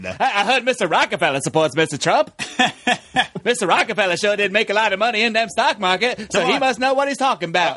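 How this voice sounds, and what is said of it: Old-timey 1920s newsman voice. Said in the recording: “like, a 1920s newsman ... I cannot do a 1920s accent.”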